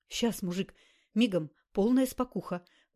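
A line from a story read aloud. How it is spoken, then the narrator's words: Fast nervous mutter. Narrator (Russian): быстро забормотал напарник вагоновоза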